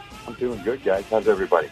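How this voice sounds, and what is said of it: Quiet, hushed speaking voice. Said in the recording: “you're talking so quietly”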